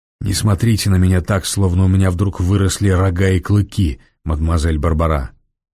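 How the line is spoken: Low, ordinary voice. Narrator (Russian): В полголоса произнес Девре своим обычным голосом

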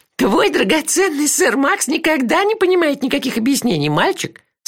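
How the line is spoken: Laughing mutter. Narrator (Russian): сквозь смех пробормотала она

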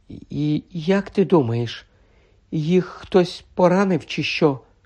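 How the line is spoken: Whispering. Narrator (Ukrainian): прошепотіла Герміона

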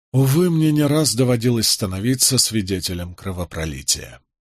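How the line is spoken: Sighing. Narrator (Russian): вздохнул я

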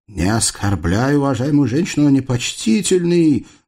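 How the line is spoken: Loud demand. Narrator (Russian): громко потребовал Дамуло

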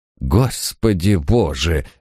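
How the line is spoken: Breathless exclamation. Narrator (Russian): выдохнул Крейг

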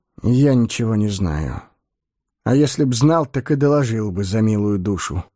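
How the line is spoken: Tired explanation. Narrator (Russian): устало пояснил Соль

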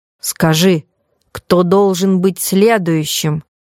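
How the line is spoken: Stern command. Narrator (Russian): строго приказал духу Проспера

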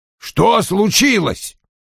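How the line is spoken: Irritated snap. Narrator (Russian): раздраженно бросил Вульф мне вслед

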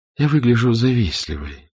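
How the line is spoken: Sad, smiling. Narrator (Russian): грустно улыбнулась синьора

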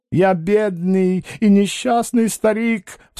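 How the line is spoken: Sobbing. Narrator (Russian): всхлипывал он

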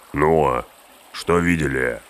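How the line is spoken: Growled. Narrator (Russian): рыкнул Углук

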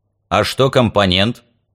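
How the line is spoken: Angry growl. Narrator (Russian): Дюмулье аж зарычал от злости

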